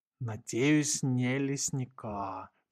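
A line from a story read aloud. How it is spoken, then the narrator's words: Groan. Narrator (Russian): простонал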